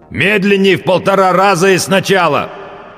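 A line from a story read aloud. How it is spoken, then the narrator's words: Loud growl. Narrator (Russian): прорычал он, как любой человек, забывший, что он в наушниках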